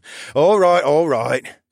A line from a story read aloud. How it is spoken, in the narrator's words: the brain chuckled